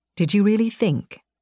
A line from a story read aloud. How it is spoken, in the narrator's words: Vincent whispered in the back of my mind